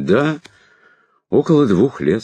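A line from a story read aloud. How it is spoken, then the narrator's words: Calm confirmation. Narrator (Russian): спокойно подтвердил сэр Шурф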